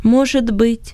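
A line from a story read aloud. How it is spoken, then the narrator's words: Plain. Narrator (Russian): сказал Иосиф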